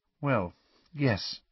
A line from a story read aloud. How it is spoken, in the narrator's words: said Hermione quietly